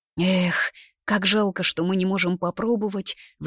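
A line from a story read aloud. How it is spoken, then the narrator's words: Sighing. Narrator (Russian): вздохнула Элли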